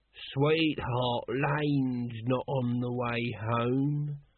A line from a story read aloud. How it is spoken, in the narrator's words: slurred Nobby